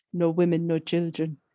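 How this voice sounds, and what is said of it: Accent like Jean-Claude Van Damme. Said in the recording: “I need a bit of an accent for this as well... The accent implies Jean-Claude Van Damme... that's not a million miles away from what I'm going for”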